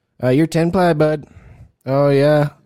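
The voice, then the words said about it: Put-on Canadian accent. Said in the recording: “can you give me a Canadian Spanish accent? ... That's Canadian.”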